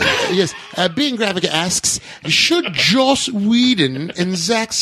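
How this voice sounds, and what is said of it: Usual voice. Nothing is said of it.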